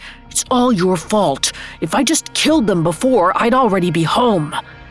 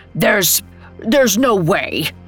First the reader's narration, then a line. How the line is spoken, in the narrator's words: he stammered